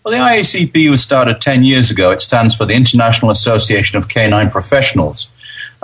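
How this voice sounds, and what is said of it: English accent. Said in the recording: “Oh, you're English, huh?”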